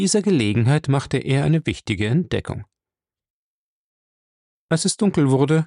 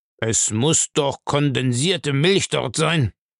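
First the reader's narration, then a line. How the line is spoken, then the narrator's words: Grumbling. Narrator (German): brummte Bellamy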